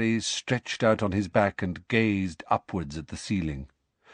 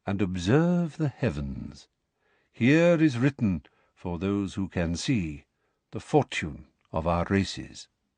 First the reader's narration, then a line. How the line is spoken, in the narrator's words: said Firenze in his calm voice